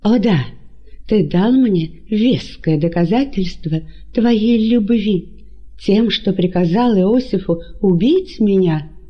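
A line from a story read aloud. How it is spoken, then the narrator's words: Indignant exclamation. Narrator (Russian): С негодованием воскликнула Мариамна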